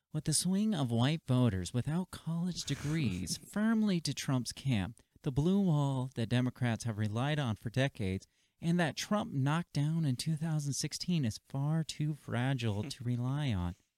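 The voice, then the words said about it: Mock NPR radio announcer voice. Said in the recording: “That needs an NPR voice.”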